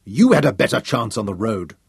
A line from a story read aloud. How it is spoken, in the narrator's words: Yusuf snarled at him